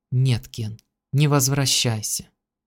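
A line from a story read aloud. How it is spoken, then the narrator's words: Sudden, quiet. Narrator (Russian): Кэрол внезапно тихо сказала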